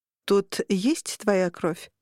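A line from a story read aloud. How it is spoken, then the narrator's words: Plain question. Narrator (Russian): спросила Даниэла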